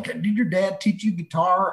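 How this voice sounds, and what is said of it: Put-on Texan-style accent. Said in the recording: “I like that accent that you just used to ask a question, because I've been around you in Texas before”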